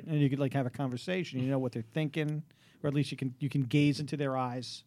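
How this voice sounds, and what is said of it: Brooklyn accent. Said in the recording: “has a thicker accent than I do ... I grew up in Brooklyn ... Yeah, so you didn't get that accent. You didn't get what I got.”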